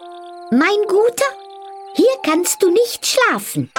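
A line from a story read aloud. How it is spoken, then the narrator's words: Stork, high voice. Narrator (German): ein Storch … sagte mit hoher Stimme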